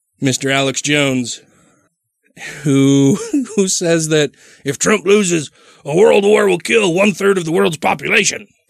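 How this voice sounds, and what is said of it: Imitates another person's voice, strained. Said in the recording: “That was a good impression of him ... When I really want to make my throat sore.”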